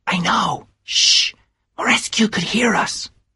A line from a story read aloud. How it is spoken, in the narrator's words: whispered Nick